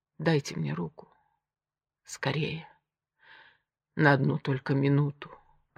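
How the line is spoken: Whisper. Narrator (Russian): прошептал Овод

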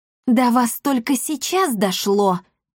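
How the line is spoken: Through gritted teeth. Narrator (Russian): процедила исселитка

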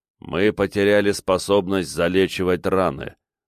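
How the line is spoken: Gloomy summing up. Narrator (Russian): мрачно подвел итог один из клонов сознания

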